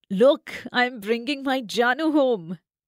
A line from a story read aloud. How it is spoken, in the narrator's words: her husband Nadeem called out to his sister